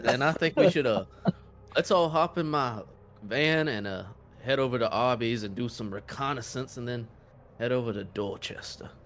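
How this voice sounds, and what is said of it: Put-on Southern Georgia accent. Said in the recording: “I'm a Southern Georgia man, and I'm speaking Southernly... with my accent... you're sounding in top form. Did you get even more Southern?”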